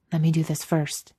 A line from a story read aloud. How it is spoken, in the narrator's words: Jared whispers